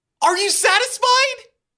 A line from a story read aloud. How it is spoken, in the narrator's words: You shout at the walls